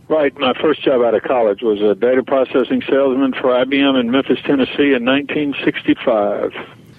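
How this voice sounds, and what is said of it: Southern US accent. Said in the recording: “people will be able to tell from your accent, you know, you're from the South”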